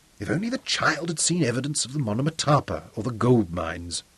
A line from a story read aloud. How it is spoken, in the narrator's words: muttered Zuga